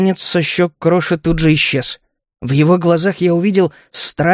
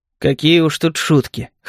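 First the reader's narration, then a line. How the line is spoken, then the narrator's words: Wry snort. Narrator (Russian): хмыкнул я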